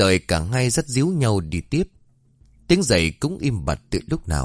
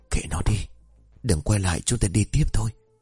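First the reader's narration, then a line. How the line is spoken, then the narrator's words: Trembling whisper. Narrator (Vietnamese): Hương lúc này run rẩy thì thầm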